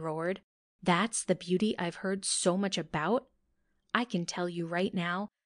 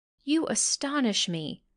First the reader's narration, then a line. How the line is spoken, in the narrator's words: Freddy Firefly exclaimed